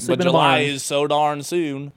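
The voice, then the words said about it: Put-on North Carolina accent. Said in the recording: “a North Carolina accent”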